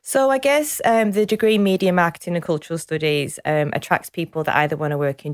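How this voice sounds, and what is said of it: Manchester English accent. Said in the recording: “Manchester... You've still got the accent... it's still there, still going strong”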